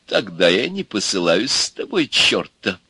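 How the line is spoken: Spiteful. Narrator (Russian): сказал изящный черт, злобно

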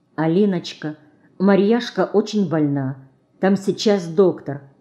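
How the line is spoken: Mother, quiet explanation. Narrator (Russian): тихо пояснила мать

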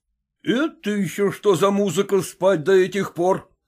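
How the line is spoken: Exclaimed. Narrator (Russian): воскликнул

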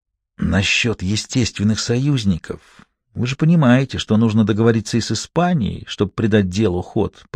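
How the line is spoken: Whisper in the ear. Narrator (Russian): прошептал он в самое ухо послу

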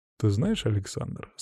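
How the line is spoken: Calm, quiet voice. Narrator (Russian): спокойным тихим голосом сказал он

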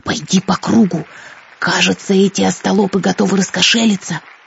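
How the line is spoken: Whisper. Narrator (Russian): шепнул он

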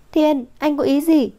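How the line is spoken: Exasperated outburst. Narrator (Vietnamese): Vũ Thư vẫn luôn bị thờ ơ, không nhịn được kêu lên

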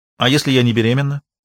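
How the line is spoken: Sharp question. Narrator (Russian): резко спросила Кристина

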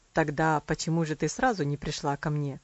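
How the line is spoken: Wry, twisted tone. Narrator (Russian): кривым тоном спросил он

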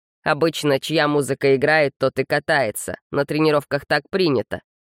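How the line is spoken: Calm, kind explanation. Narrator (Russian): спокойно, по-доброму объяснил Гаррет

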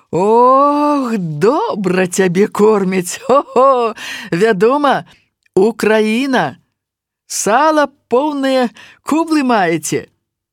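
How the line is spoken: Laughing. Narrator (Belarusian): Маша таксама засмяялася

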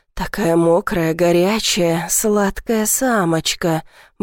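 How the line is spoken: Muttering, younger man. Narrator (Russian): бормочет младший

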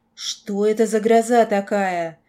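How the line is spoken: Roared. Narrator (Russian): взревел Стив

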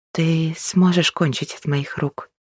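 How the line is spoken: Hoarse whisper. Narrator (Russian): Срываясь на хриплый шепот, уточнила она

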